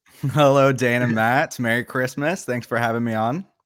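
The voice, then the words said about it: American accent. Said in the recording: “I suppose that isn't a British accent that they can hear ... the token American on the show”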